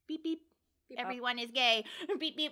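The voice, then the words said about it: Robotic beeping voice impression. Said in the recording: “because you're a robot now ... That was my impression of you.”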